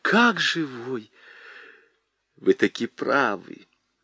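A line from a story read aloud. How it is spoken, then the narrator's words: Old man whispering agreement. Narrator (Russian): Шепотом согласился старик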